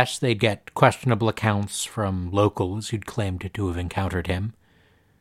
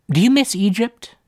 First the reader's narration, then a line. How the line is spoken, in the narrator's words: blurted